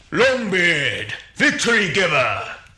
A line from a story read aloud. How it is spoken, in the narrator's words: shouted the master